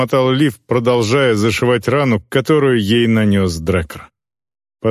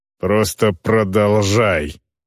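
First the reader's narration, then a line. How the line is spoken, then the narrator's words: Female growl. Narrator (Russian): прорычала орка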